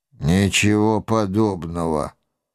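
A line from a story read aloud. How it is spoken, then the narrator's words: Gloomy lie. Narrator (Russian): мрачно соврал я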